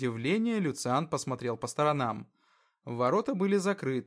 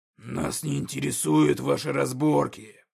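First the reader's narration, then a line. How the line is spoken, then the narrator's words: Roaring. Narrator (Russian): проревел Когтеклык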